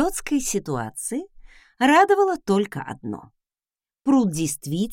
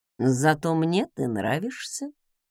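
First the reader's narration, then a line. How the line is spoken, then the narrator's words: Quiet. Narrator (Russian): тихо проговорил он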